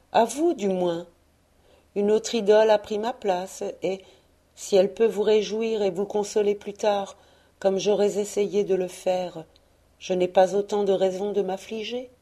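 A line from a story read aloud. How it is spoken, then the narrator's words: Soft. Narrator (French): disait-elle doucement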